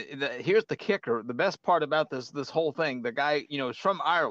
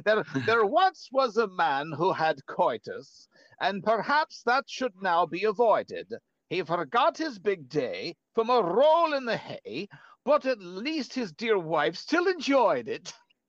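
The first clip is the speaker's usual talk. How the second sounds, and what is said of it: Put-on Irish accent. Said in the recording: “I'll put this in my best Irish accent.”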